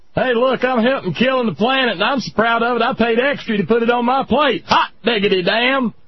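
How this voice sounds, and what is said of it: Weak put-on Michigan redneck accent. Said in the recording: “I just don't do the Michigan accent worth a damn. ... It all ends up sounding like Sarah Palin. ... You've got a little bit too much of that Minnesota ... I just generically leave it redneck”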